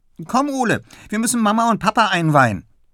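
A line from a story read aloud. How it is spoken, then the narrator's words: Calling out. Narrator (German): ruft die schon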